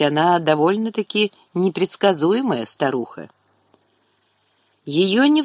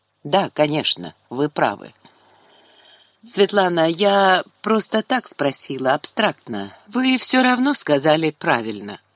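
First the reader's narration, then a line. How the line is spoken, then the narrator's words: Mumbling, then firm. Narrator (Russian): забормотала неясное и потом уже твердо сказала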